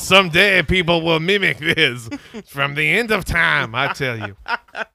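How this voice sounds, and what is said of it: Put-on Cajun accent. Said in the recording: “we got a little Cajun there. That was nice.”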